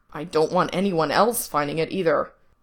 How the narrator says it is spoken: he growls

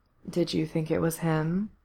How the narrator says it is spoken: Corse murmured

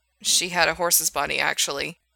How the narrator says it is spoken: he muttered

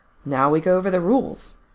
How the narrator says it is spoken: answered their de facto leader, cheerfully but firmly

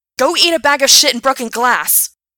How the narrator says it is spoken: Gerard shouted

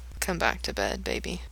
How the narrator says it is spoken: he whispers

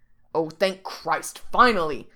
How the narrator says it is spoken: Jack snarls against his mouth

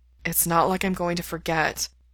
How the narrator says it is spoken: Mikey says with a sigh

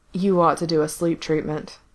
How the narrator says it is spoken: Corse said with a long-suffering sigh

